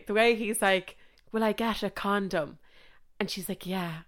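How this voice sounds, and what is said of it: Put-on Sligo Irish accent. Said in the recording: “if I do an accent, don't come for me. If anyone's listening to this from Sligo, do not come for me. I just can't tell a story without trying to do the accent”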